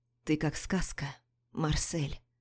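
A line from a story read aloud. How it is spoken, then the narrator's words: Whisper in ear. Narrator (Russian): шепчет на ухо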